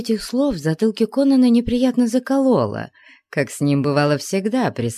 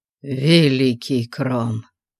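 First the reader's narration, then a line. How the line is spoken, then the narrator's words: Breathless exhale. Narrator (Russian): выдохнул он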